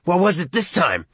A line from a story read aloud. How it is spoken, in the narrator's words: Arnie asked fiercely